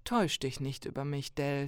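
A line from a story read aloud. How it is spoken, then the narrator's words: Plain. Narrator (German): sagte er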